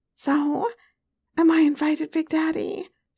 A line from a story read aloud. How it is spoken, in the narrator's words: she cooed